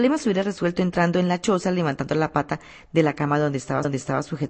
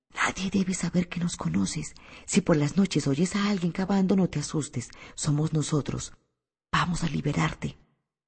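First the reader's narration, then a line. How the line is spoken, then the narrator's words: Whisper. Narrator (Spanish): le susurró a Jim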